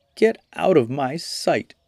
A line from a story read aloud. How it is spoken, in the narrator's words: cried the maiden from within